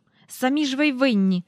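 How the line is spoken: Angry. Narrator (Ukrainian): сердито сказав містер Бенкс

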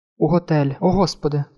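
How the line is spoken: Woman's moan. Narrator (Ukrainian): простогнала жінка

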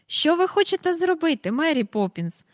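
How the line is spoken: Impatient exclamation. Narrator (Ukrainian): вигукнув Майкл, далі не втерпівши

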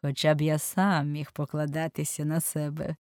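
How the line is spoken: Laughing. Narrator (Ukrainian): засміявся лорд Генрі

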